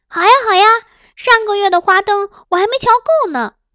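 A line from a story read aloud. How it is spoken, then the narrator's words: Cheerful laughing agreement. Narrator (Chinese): 张美人先叫好，众娘子一表赞同，连公主都拍着手笑道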